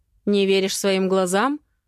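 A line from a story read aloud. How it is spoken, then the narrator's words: Mother's angry smirk. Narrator (Russian): зло усмехается мама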